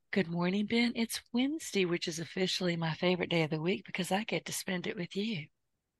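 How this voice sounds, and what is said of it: Southern American drawl. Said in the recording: “that sweet Southern accent ... I always feel like I've gone back to Atlanta ... I do not have an accent. I have a drawl.”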